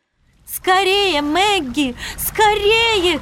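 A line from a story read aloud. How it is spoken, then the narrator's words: Urgent shout. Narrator (Russian): кричала Вивиана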